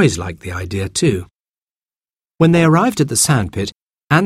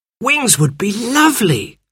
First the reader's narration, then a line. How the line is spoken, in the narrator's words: cried Jane